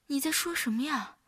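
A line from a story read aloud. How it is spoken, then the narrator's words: Puzzled question. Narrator (Chinese): 云舒听不清楚他在说什么， 问道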